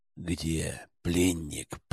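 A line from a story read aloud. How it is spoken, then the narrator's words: Hiss. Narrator (Russian): прошипел я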